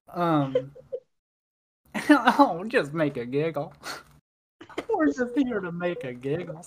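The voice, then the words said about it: Silly made-up character voice. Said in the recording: “I say sorry anytime I do a voice ... That's how I imagine people in Candyland talk”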